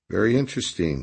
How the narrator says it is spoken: Captain Quarterblad said calmly

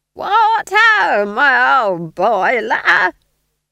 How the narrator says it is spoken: screeched above the din

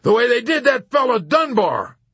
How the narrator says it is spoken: Colonel Cathcart blurted out from the corner peevishly

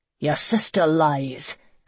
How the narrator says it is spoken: Conan snarled

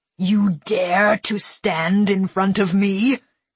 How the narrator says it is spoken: he snarled

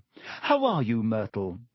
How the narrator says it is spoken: said Hermione in a falsely bright voice

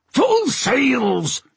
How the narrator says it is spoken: He bellowed to the crew

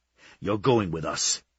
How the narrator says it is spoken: he hissed, only too happy to scare her

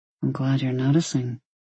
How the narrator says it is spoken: he murmured in return

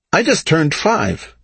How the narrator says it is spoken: Gudam said brightly

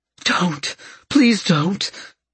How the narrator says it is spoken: Fluff said, her voice full of fear

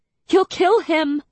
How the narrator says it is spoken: I sobbed

